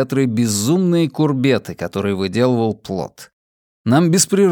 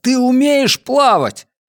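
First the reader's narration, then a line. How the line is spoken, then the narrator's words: Shout. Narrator (Russian): я крикнул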